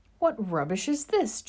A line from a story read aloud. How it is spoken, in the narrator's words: James cried after a moment